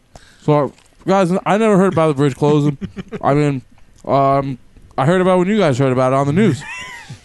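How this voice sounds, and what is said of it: Chris Christie impression, mouth full. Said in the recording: “I'm eating right now, I might be able to do like a good Chris Christie impression. ... When he inhaled his snot, man, that Governor Christie was awesome.”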